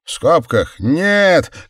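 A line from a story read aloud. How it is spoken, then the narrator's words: Young man shouting from gallery. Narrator (Russian): крикнул какой-то парень с галерки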